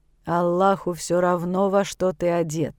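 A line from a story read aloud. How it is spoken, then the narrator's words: Sleepy impatient grumbling. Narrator (Russian): Сонным голосом ворчит Акбар в надежде поскорее избавиться от него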